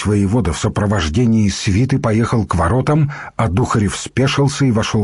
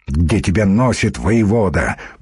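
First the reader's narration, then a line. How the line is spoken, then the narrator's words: Grumble. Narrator (Russian): проворчал Свенальд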